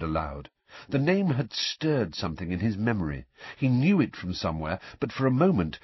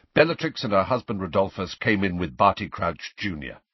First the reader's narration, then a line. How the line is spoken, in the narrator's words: said Sirius in the same brusque voice